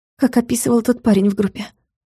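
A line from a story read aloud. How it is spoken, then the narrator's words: Squeaking. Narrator (Russian): пискнула Юля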